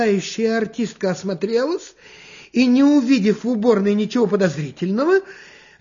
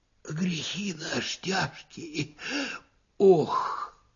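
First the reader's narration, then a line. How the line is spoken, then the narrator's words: Sighing whisper. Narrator (Russian): Опять кто-то вздохнул и даже как будто прошептал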